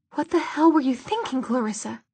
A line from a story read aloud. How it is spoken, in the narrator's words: His voice faded out and back in again